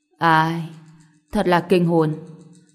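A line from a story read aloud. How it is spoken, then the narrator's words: Sighing old man. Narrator (Vietnamese): Lão già thở dài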